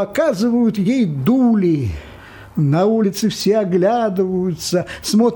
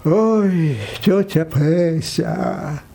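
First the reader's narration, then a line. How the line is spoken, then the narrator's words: Sighing. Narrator (Russian): вздохнул парикмахер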